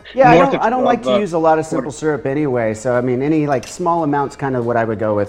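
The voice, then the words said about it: Rhode Island accent. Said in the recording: “My Rhode Island my, accent is coming. Out”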